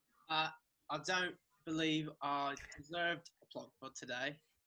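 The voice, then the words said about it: Put-on British accent. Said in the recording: “One more British accent ... you got to do it in an accent”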